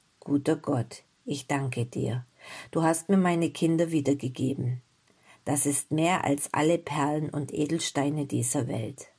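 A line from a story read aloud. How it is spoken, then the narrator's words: Moved, emotional whisper. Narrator (German): flüsterte mit bewegter Stimme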